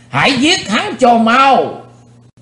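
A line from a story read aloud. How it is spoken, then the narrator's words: Crowd roaring in unison. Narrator (Vietnamese): Quần hùng đồng thanh gầm thét chấn động cả chân núi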